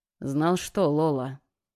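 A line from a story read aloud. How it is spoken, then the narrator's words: Tired voice. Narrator (Russian): Голос Лукаса звучал устало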